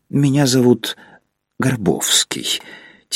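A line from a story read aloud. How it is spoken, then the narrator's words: Quiet. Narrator (Russian): тихо сказал незнакомец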